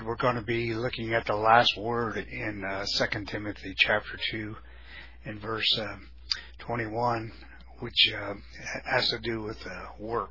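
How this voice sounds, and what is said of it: Slightly weak voice. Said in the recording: “my voice is just a little bit weak”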